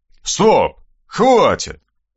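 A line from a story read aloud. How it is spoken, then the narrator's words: Barked, suppressing laughter. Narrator (Russian): рявкнул Аристарх Макарович, еле сдерживая смех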